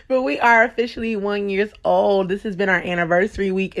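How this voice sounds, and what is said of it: Excited voice. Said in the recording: “I'm so excited. I don't know if you can tell in my voice”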